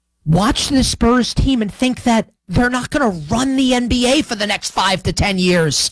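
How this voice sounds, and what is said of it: Usual voice. Nothing is said of it.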